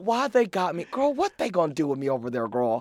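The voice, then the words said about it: Imitated accent of a friend. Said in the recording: “Not that accent”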